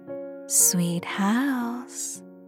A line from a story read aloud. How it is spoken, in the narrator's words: she purred